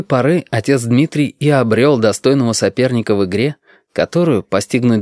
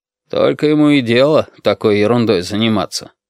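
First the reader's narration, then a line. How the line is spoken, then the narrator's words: Sore grumbling. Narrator (Russian): ворчал отец Дмитрий, переживая очередной проигрыш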